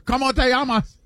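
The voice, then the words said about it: Spanish with a Japanese-sounding accent. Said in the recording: “Why do you say it like you're from Osaka? ... your Spanish accent sounded like from Osaka”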